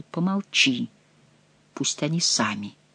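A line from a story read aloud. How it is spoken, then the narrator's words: Whisper. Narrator (Russian): Бюсси шепнул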